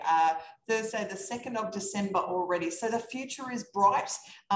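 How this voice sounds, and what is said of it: Australian accent. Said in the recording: “I'm from Australia. That's this funny accent going on here”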